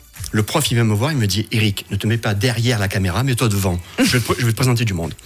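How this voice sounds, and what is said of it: Marseille southern French accent. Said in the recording (French): “L'accent que vous entendez bien, là, en direct sur Rouge. Hein, on voit que c'est pas l'accent suisse. ... Tu habites à Marseille”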